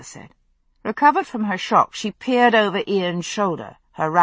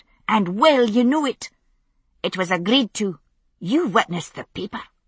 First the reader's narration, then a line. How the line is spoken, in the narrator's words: she snapped